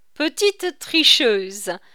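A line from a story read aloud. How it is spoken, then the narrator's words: Senior officer laughing. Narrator (French): dit en riant l'agent supérieur de la police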